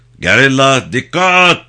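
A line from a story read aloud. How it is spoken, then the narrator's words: Shouting. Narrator (Turkish): diye bağırdı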